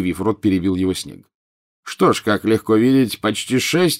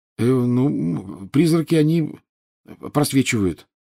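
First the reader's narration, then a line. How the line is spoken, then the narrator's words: Mumbling. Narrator (Russian): промямлил Гарри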